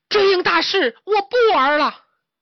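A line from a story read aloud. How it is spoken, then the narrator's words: Sulky loud shout. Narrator (Chinese): 小猪一赌气，大喊一声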